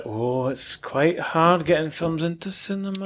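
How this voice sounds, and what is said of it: Good put-on Scottish accent. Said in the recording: “Scottish ... That was such a good accent ... Great performance”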